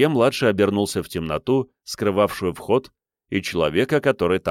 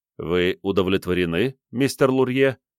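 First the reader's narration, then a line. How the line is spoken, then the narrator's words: Calm question. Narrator (Russian): спокойно спросил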